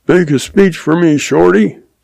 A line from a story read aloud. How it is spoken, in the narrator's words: says Bill